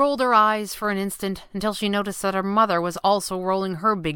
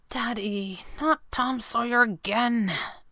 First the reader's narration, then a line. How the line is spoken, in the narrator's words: Abigail almost whispered